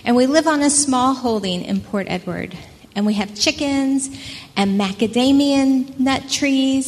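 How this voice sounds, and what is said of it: American accent. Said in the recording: “we are originally from America, if you can't place my accent, but you probably recognize it”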